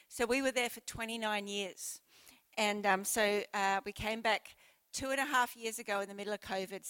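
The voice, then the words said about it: Australian accent. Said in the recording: “and I have Australian accents, I think. Do I still sound Australian? Yep.”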